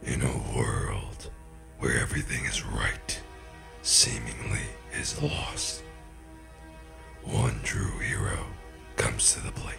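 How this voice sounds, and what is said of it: Dramatic movie trailer narrator voice. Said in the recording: “The whole movie trailer thing is too serious.”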